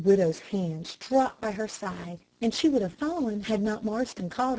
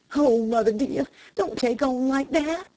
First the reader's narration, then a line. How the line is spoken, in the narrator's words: he cried